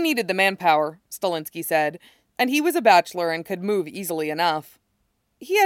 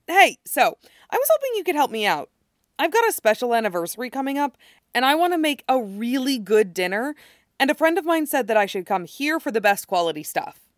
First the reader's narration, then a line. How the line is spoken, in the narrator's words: Styles had come in and said brightly